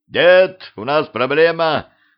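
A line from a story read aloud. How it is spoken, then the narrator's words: Yelling. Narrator (Russian): заорал Петрович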